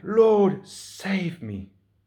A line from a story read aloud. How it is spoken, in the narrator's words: beginning to sink, he cried out